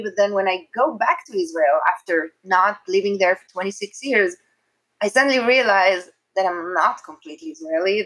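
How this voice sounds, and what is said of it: Israeli accent. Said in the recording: “I'm very Israeli. It's very obvious with my accent”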